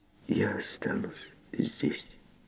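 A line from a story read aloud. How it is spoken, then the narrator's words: Quiet reply. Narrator (Russian): тихо ответила она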